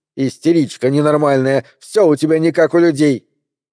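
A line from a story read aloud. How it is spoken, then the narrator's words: Mother's frenzied shout. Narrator (Russian): мать, в очередной раз доведенная до исступления, крикнула ей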